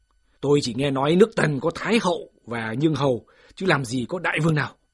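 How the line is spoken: Loud voice. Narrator (Vietnamese): Phạm Thư còn đang lớn tiếng

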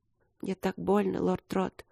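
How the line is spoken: Whisper. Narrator (Russian): шепнула

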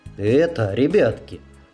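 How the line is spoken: Suddenly tender. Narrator (Russian): вдруг неожиданно ласково сказал он

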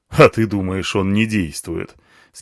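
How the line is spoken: Skeptical snort. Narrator (Russian): скептически хмыкнул слон

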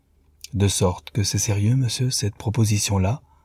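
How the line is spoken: Gentle elderly woman asking. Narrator (French): demanda doucement la vieille femme

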